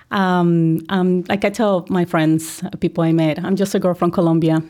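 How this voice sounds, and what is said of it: Colombian Spanish accent. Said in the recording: “I recognize I have my accent, but I'm very proud of it ... I'm originally from Colombia”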